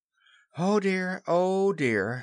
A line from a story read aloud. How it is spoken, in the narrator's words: sighed Wendy